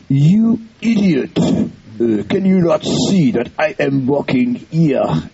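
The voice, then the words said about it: Put-on sweet French accent. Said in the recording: “with a sweet French accent,”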